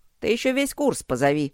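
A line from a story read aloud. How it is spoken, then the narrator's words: Snide reply, old man. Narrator (Russian): ехидно отозвался дед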